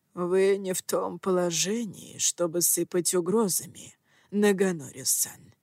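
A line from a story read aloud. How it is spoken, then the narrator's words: Quiet, calm. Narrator (Russian): тихо и спокойно произнес учитель Дзира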